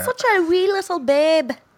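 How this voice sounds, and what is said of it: Put-on Irish accent. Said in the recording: “You really lean into that Irish accent this week, eh?”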